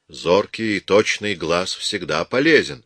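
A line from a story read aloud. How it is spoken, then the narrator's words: Calm. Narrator (Russian): спокойно произнес Рич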